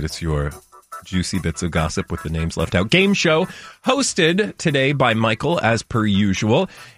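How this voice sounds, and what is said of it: Radio announcer voice. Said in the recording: “I'm doing the radio voice again.”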